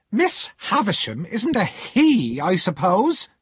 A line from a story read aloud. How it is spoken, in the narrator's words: answered sharply